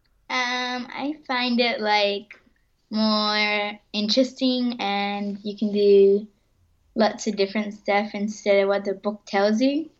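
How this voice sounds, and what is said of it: Child with mid-Pacific Spanish-tinged accent. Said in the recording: “You've got an interesting accent. I reckon you've got a mid-Pacific Spanish accent”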